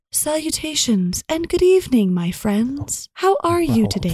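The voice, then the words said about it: Voice like a virtual assistant. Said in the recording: “you sound like my Siri that I'm extra polite to.”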